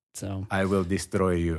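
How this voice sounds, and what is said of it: Put-on Russian accent. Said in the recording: “the psychological Russian accent”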